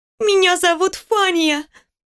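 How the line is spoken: Sobbing girl answering. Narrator (Russian): всхлипывая ответила девочка

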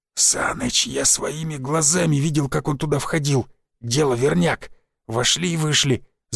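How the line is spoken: Hissing. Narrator (Russian): зашипел Васян

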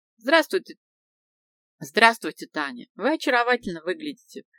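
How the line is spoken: Mesmerizing male voice. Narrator (Russian): произнес он своим завораживающим голосом

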